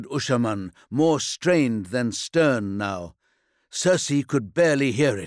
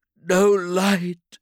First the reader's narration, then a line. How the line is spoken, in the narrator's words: she sobbed